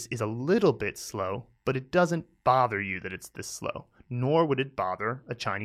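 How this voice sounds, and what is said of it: Usual voice. Nothing is said of it.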